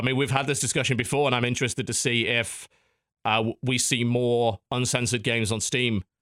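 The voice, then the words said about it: Strained, hoarse voice. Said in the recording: “losing my voice”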